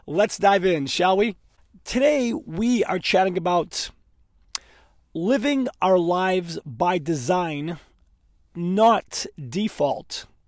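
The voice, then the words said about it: Strained, worn-out voice. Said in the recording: “My voice is a little off today... Too much laughing, too much singing, too much screaming... my voice being the way it is”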